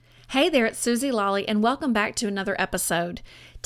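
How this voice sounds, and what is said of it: Slight Southern American twang. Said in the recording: “with a little Southern twang”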